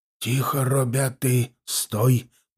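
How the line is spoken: Quiet speech. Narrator (Russian): проговорил негромко Осип

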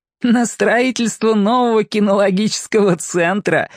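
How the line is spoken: Announcement with ironic laugh. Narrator (Russian): объявила она и снова иронично хохотнула

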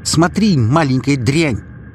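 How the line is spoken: Frenzied shouting. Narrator (Russian): В каком-то исступлении закричал он на ребенка

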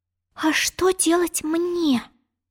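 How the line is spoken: Bewildered whisper. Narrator (Russian): растерянно прошептала Алиса

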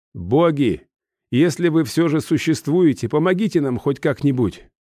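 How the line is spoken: Fairly loud. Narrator (Russian): произнес я достаточно громко

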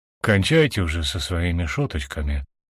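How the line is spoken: Grumbled. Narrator (Russian): буркнул

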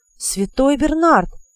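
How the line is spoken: Disbelieving exclamation. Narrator (Russian): воскликнул он, все еще не веря своим глазам

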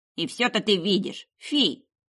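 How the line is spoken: Loud snort. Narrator (Russian): чертяка громко фыркнул

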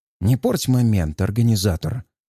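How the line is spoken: Irritated hiss. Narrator (Russian): Раздраженно шипит одержимый

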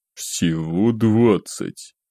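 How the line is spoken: Drawled, slightly surprised. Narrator (Russian): протянул он с легким удивлением

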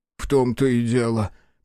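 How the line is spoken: Sad sigh. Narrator (Russian): печально выдохнул Соломон

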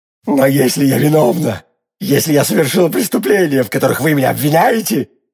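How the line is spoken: Growling. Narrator (Russian): рычала Милейди

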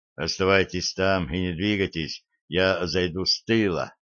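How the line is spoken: Whisper. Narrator (Russian): прошептал он

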